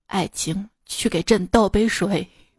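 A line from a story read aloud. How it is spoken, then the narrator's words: Deep, regal voice. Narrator (Chinese): 他爸立刻做出一副王者姿态，沉声道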